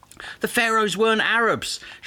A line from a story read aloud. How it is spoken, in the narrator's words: shouted someone in the audience derisively